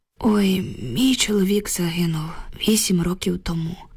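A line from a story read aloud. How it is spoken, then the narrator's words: Heavy sigh. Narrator (Ukrainian): важко зітхнула Люба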